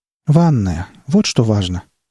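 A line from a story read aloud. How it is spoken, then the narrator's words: Tired tone. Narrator (Russian): продолжила она усталым тоном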